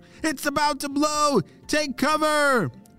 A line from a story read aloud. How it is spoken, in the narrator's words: shouted Slater